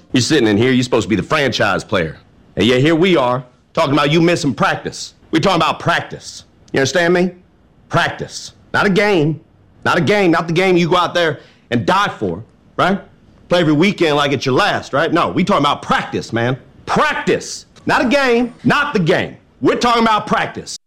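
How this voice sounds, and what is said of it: Imitates another person's voice. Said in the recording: “doing his best Allen Iverson impersonation”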